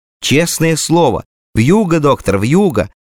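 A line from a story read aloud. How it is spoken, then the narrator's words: Joyful repetition. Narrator (Russian): Повторила радостно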